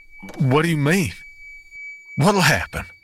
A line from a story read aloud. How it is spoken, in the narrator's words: I gasped